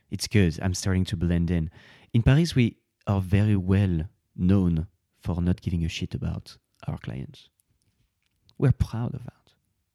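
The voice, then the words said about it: Put-on French accent. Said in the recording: “I suddenly get my French accent”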